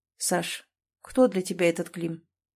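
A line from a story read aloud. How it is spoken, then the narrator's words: Asked quietly, without judgment. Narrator (Russian): Спросил тихо, без осуждения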